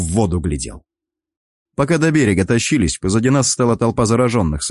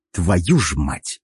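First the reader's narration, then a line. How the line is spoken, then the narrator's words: Muttered. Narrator (Russian): Пробормотал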